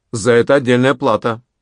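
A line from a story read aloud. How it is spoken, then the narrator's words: Firm, knowing voice. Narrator (Russian): произнес Пако твердым голосом, ибо хорошо знал, с кем имеет дело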